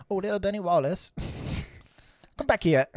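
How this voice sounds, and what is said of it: Bad put-on Scottish accent. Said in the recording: “accents now? ... That was a bad Scottish accent.”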